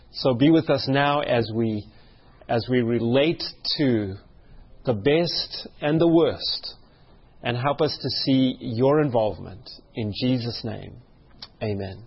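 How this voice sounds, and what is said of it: Weak, failing voice. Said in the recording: “my voice has been going out a little”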